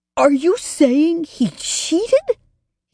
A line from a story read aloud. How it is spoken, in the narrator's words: sputtered